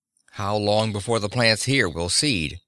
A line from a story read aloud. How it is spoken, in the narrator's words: Mueller asked sharply